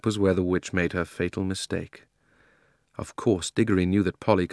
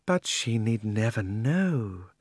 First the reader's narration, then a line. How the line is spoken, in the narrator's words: said the witch, speaking more sweetly than you would have thought anyone with so fierce a face could speak